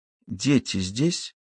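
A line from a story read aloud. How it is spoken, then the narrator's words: Barely audible. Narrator (Russian): еле слышно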